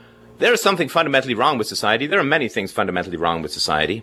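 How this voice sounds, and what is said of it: Usual voice. Nothing is said of it.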